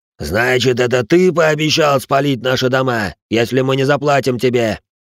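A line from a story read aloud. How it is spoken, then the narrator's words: Shouted. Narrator (Russian): Выкрикнул усатый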